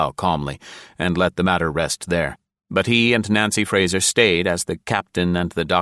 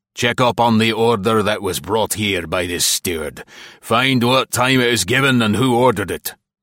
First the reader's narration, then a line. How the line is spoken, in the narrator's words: The captain growled